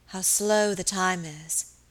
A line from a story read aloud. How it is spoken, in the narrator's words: she said wearily